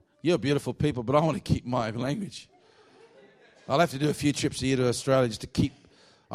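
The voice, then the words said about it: Australian accent. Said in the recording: “my Aussie accent”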